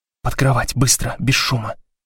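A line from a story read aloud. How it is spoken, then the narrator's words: Whisper. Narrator (Russian): прошептала Блок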